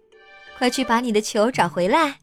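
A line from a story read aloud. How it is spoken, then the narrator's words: Mother, laughing. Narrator (Chinese): 妈妈笑着说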